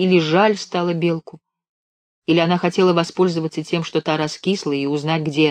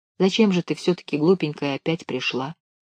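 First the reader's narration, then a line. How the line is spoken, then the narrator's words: Gentle question. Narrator (Russian): ласково спросила она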